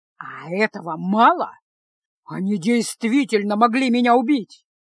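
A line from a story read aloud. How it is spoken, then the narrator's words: Restrained growl, nearly shouting. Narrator (Russian): Прорычал маг, еле сдерживаясь, чтобы не перейти на крик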